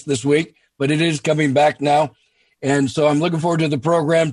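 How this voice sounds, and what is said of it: Hoarse, partly lost voice. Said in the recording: “I'm a little hoarse ... I seem to have lost my voice”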